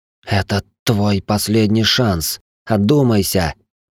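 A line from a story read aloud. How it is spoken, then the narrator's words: Hissing. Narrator (Russian): прошипела Шайнари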